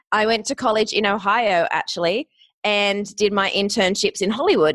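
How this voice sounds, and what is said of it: Australian accent. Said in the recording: “you might recognize the accent, I'm Australian”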